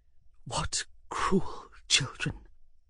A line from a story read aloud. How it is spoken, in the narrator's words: driven him nearly to tears, say to himself under his breath